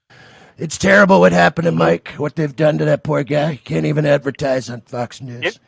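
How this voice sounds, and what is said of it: Poor imitation of another person's voice. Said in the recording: “Are you a guy doing a Trump impression ... Bad impression”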